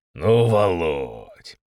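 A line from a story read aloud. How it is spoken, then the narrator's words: Smiling drawl. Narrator (Russian): С улыбкой протянул Степан Викторович Державин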